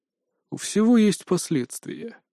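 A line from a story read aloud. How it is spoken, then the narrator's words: Grim, somber tone. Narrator (Russian): мрачно произнес Пихтин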